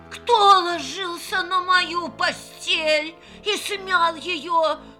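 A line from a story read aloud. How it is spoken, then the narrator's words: Soft growl. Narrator (Russian): зарычал Настась Петровна не так громко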